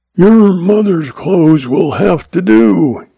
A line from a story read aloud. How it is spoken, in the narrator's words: roared